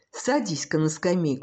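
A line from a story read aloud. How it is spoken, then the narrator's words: Plain. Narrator (Russian): сказал журналист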